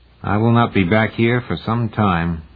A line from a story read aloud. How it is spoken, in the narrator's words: said sadly